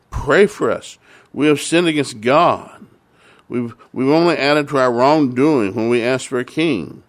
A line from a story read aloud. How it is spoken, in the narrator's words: The rain was so heavy in fear, the people cried to Samuel